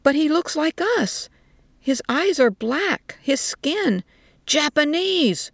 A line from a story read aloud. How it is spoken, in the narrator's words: one of them shouted at her